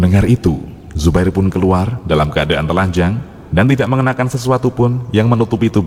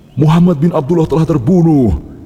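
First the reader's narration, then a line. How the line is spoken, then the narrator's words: Shouting voice. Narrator (Indonesian): suara teriakan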